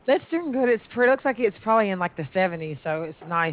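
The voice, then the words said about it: Alabama accent. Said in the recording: “I love your accent. ... Alabama.”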